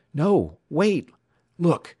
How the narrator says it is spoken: he exclaimed

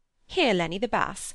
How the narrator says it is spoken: cried Mrs

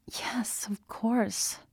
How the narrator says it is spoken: she said weakly

